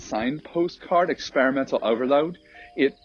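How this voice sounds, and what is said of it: Unintended Australian-sounding accent. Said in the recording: “Did I just sound Australian when I said that? ... some kind of Australian accent.”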